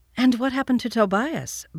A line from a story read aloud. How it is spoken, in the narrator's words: Barbie asked eagerly